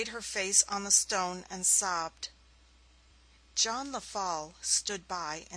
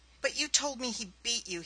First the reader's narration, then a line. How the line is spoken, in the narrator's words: he cried